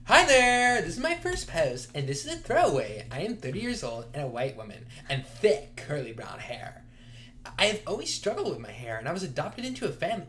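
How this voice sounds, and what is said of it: Put-on reading voice. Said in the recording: “I can't do this voice anymore.”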